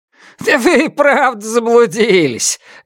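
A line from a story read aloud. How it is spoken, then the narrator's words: Loud laughter. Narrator (Russian): громко расхохотался Лю Санцян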